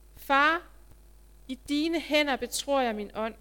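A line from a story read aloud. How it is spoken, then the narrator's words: Loud cry. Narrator (Danish): Jesus råbte af sig med høj røst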